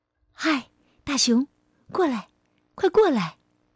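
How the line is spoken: Gentle call. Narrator (Chinese): 他温柔的叫道

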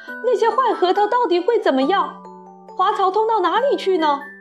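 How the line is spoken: Shrill scream. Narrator (Chinese): 索尔特太太 尖声大叫

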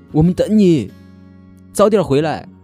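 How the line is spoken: Laughing shout. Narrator (Chinese): 姐姐笑了，对着铁轨大喊

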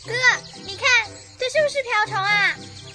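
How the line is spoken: Calling out. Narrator (Chinese): 婷婷叫着

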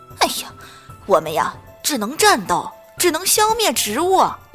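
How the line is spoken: Roaring. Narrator (Chinese): 篮球僵尸冲着他吼道

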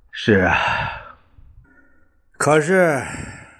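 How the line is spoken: Sighing. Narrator (Chinese): 陈布雷叹了一口气

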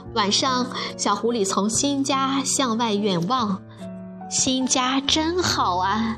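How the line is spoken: Happy sigh. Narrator (Chinese): 小狐狸幸福地感叹着

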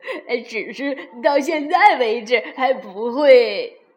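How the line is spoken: Laughing. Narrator (Chinese): 罗菲笑了，说道

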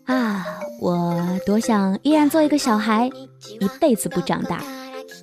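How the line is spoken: Wistful sigh. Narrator (Chinese): 长大后的我们对自己感叹说

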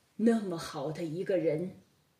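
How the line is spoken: Sighing. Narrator (Chinese): 他不禁叹道

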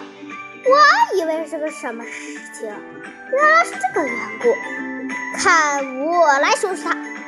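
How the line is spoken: Laughing old man. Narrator (Chinese): 老人哈哈一笑

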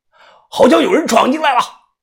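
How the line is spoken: Loud shout. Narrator (Chinese): 不知谁在大喊了一句

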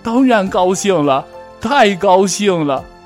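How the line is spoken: Smiling. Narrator (Chinese): 欧丽笑着说

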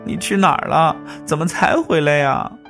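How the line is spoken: Crying while speaking. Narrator (Chinese): 边哭边说

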